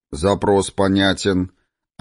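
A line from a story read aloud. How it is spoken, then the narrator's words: Crisp, clipped words. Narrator (Russian): отчеканил бродяга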